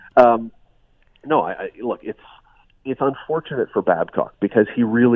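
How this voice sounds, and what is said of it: Usual voice. Nothing is said of it.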